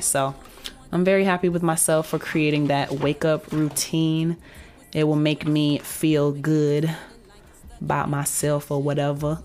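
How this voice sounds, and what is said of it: Slightly deeper voice than usual. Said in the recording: “If my voice sounds a little deeper, it's because I've been watching this new show”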